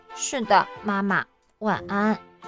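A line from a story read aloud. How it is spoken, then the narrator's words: Murmuring. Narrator (Chinese): 我喃喃地说道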